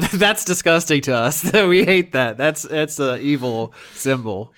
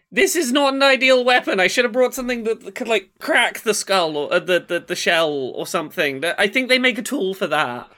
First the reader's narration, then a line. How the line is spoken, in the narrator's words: Barbella does shout